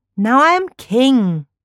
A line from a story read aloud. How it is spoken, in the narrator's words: the young boy cried